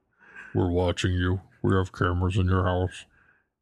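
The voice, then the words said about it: Deliberately lowered, deep-pitched voice. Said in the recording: “doing that with your voice? It sounds like you're pretending like you have a thing on your voice, but you're just lowering the pitch of your voice.”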